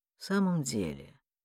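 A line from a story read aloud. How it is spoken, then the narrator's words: Muttered. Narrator (Russian): пробормотал Басса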